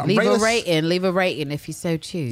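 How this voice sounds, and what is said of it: Put-on English accent. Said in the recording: “my English accent”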